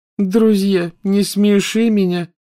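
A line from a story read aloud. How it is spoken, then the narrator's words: Contemptuous, through gritted teeth. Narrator (Russian): презрительно процедила Лаванда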